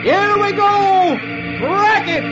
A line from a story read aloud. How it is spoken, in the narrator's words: the lead man yells